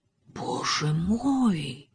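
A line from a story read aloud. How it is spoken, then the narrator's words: Bewildered whisper. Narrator (Russian): прошептала Жюльена, недоуменно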